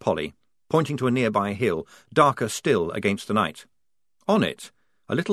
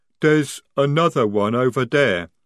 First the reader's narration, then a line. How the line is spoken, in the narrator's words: rumbled Jade